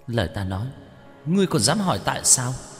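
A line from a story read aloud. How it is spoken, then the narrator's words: Terrified male ghost. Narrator (Vietnamese): Nam quỷ sợ hãi vô cùng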